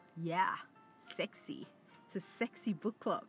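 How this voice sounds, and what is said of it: Attempted sexy, seductive voice. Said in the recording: “I don't even know if that was a sexy voice, but is it turning you on?”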